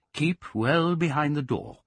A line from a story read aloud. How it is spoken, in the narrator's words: he said